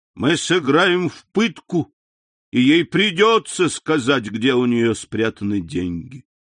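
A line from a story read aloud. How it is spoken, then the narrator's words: Boy exclaiming. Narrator (Russian): один из них, боюсь, что это и был этот проклятый мальчишка, воскликнул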